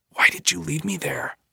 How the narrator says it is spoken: Billy says, whispering the question

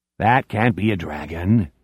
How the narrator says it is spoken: Doc Amberson says in a weirdly reasonable voice

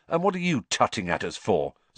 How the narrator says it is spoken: said Ron, irritably

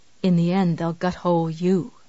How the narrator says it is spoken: he said quietly

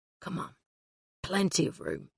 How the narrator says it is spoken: he muttered

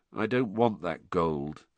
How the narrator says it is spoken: said Harry in an expressionless voice

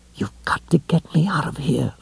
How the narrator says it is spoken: Lois whispered

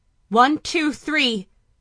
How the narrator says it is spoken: she shouted in a rush

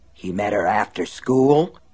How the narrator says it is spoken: Lester asked hoarsely

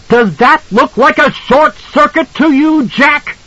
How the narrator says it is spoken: she screamed at him

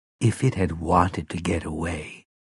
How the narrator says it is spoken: Mia said quietly

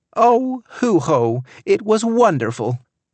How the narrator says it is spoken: Tammy exclaimed, shouting to make herself heard

